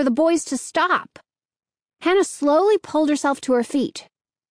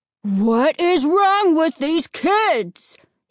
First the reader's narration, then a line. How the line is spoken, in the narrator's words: bellowing